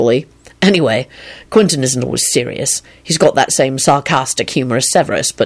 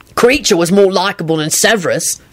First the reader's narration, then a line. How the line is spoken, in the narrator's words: Sirius barked out disgustedly